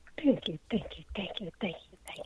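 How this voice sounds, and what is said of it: Whispering. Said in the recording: “Why you whispering?”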